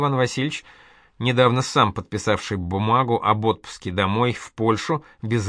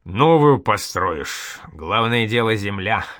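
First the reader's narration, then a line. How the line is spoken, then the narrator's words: Chuckling. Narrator (Russian): хохотнул Шуйский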